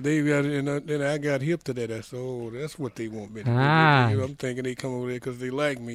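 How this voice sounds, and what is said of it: Strong regional accent. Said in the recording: “they were fascinated by your dialect ... I never did lose that accent. Still got it.”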